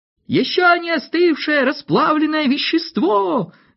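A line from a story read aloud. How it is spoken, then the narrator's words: Shouting. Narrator (Russian): закричал кто-то из слушателей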